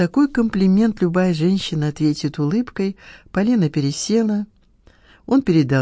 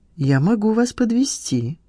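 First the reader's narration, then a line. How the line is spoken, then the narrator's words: Calm offer. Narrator (Russian): предложил спокойно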